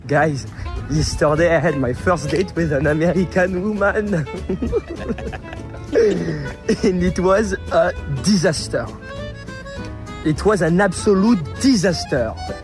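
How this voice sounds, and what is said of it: Thick French accent. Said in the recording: “super thick French accent”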